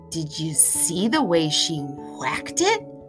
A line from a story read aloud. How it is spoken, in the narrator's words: I heard one of my other classmates whisper